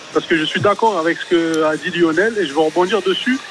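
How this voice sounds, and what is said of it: Regional French accent. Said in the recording (French): “Avec l'accent”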